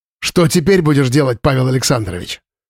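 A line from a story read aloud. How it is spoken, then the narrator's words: Malicious smirk. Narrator (Russian): Зло усмехнулся Слава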